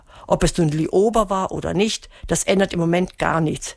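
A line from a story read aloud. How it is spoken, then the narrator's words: Grumbling. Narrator (German): brummte Melissa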